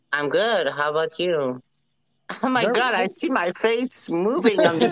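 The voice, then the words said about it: Quebecois French accent in English. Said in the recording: “What accent is that? ... French. ... I'm in Quebec ... I still speak French like a real Quebecois.”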